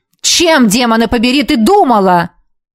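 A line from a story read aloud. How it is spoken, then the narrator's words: Barking. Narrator (Russian): рявкнул он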